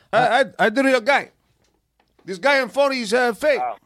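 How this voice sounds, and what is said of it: Imitated Hector Lombard accent. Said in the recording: “Hey, you got your accent. You got your accent right on.”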